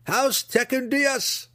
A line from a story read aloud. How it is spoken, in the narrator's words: shouted together